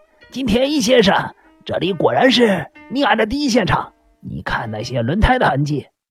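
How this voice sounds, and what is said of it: Hoarse character voice. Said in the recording (Chinese): “突然间发出了沙哑的声音说”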